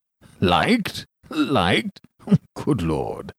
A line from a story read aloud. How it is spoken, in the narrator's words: growled